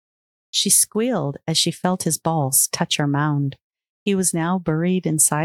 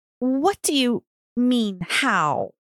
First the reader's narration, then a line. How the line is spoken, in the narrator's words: groaned, her brain starting to go fuzzy